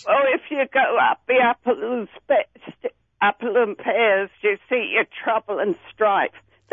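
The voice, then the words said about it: Cockney accent. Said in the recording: “East End of London. I'm a Cockney. ... talk Cockney”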